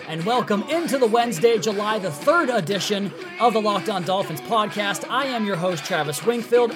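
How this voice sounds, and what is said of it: Excited, energetic delivery. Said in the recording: “I sound excited, it's because I am”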